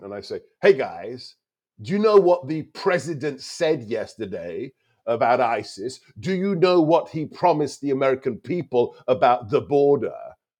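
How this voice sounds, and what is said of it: Funny accent. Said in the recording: “I'm the guy with a funny accent.”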